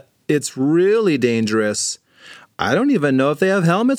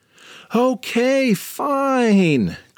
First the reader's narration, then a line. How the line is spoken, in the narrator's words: cried James